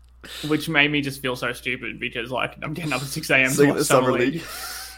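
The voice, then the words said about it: Australian accent. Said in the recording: “I'm obviously in Australia, as you know, the listeners can tell from my accent.”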